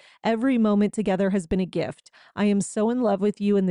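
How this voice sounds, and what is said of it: Usual voice. Nothing is said of it.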